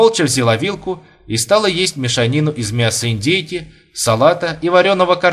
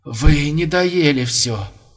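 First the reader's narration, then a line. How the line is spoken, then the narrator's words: Hoarse mumble. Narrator (Russian): хрипло пробормотал лошадиный суп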